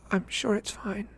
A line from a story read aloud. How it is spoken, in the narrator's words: she said in a small voice